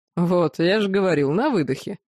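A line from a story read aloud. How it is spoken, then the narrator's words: Chuckling laugh. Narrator (Russian): хохотнул Юрао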